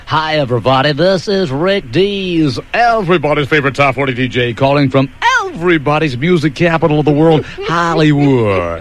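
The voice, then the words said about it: DJ radio voice. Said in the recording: “You caught me doing my radio voice”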